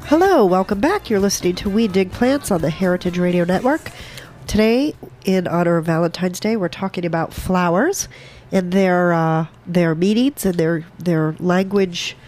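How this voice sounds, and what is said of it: Slightly stuffy, congested voice. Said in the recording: “I have a little bit of a cold”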